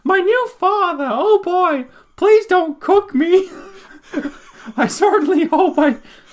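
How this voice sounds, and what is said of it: Caricatured squeaky Mickey Mouse-like boy voice. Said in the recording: “That's Chinese Mickey Mouse. ... my flawless Chinese boy impersonation.”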